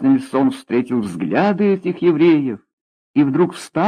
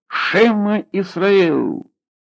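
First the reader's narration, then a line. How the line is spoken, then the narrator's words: Exhaled even louder. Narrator (Russian): Борис набрал в легкие воздух улицы Архипова и выдохнул еще громче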